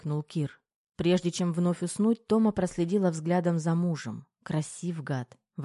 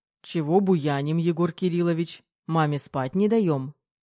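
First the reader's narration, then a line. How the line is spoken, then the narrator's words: Stern voice. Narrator (Russian): Строгим голосом заговорил Кир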